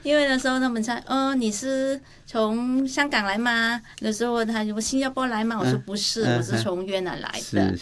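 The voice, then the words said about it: Slightly unusual accent in Mandarin. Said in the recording (Chinese): “很多人就觉得我的口音有点不一样”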